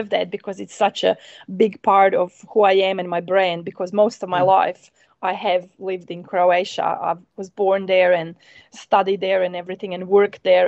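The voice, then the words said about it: Non-New Zealand accent. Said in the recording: “your accent, that's definitely not a Kiwi accent... It's a beautiful accent”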